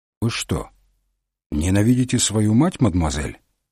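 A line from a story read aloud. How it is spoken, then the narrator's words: Calm question. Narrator (Russian): спокойно спросил Мегре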